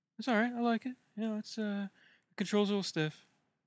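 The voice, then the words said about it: Imitates another person's voice. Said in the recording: “Why don't you be Enjoy Rock and I'll be you ... I can't do this voice forever.”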